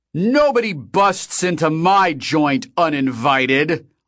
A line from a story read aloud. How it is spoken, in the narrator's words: Og shouted, his voice echoing through the now silent club